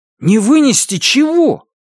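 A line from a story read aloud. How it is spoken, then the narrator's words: Nearly shouting. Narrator (Russian): почти крикнул Робби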